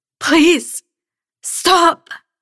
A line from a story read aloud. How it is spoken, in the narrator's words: I rasped